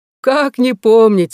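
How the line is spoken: Laughing. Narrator (Russian): засмеялся Вудкок

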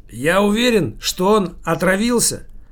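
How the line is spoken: Loud talking. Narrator (Russian): громко говорил с собутыльником Фильке и Валерию Михайловичу, Никите, дяде Сереже

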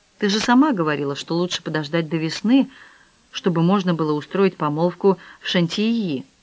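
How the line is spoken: Muttered. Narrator (Russian): пробормотал

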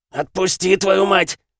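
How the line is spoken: Growl. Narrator (Russian): зарычал

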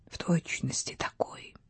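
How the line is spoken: Whispering. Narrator (Russian): шептала

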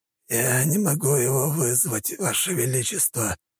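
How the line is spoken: Wheezing. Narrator (Russian): просипел князь

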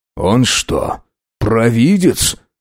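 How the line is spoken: Muttered under breath. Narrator (Russian): Пробормотал себе под нос адмирал

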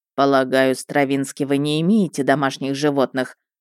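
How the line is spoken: Plain. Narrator (Russian): спросил он

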